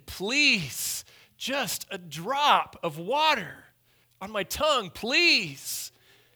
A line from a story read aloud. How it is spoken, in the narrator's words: begged and pleaded